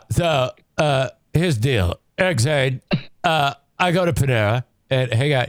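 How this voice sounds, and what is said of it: Imitates another person's voice. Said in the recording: “my impression of Kyle”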